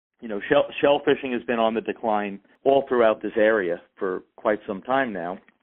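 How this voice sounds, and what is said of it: Long Island accent. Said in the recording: “If you don't know where Oyster Bay is, ... accent probably gives it away. Long Island”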